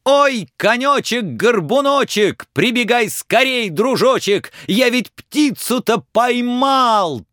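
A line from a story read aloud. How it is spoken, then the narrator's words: Shout. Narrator (Russian): Так Иван-дурак кричал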